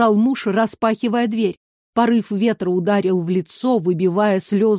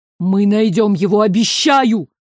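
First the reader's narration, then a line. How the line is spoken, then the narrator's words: Shouting. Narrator (Russian): крикнул он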